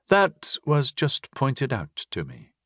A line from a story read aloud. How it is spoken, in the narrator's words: I muttered